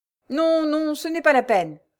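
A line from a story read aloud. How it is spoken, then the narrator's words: Quick exclamation, little old man. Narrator (French): s'écria vivement le petit vieillard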